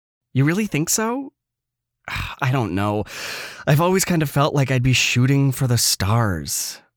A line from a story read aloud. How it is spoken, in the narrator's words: I sighed